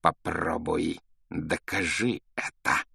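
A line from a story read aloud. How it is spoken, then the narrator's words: Hissing. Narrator (Russian): прошипел он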